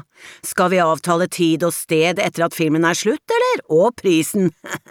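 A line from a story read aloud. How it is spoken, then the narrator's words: Added with a laugh. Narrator (Norwegian): La han til og flirte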